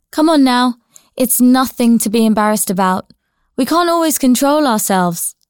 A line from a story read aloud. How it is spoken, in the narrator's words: shouted over his shoulder